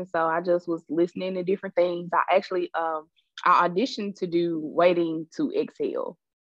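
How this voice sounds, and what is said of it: Thick Memphis accent. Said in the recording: “I have this real thick Memphis accent.”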